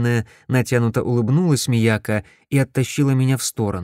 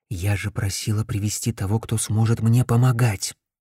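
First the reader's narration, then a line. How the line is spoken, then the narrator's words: Whispering. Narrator (Russian): зашептала она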